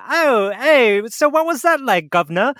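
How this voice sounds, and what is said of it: Crude put-on British accent. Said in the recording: “my version of a British accent ... the crudest, most offensive thing”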